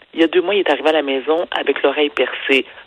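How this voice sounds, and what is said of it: Whispering. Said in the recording (French): “chuchote”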